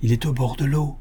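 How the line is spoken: Whispered in ear. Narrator (French): murmura Alice à l'oreille de sa compagne

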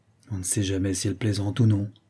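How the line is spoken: Grumbling. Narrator (French): grommela l'institutrice

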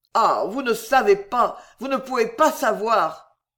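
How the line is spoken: Bursting into sobs. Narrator (French): Belgodère éclata en sanglots

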